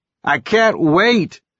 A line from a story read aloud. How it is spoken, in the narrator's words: yelled back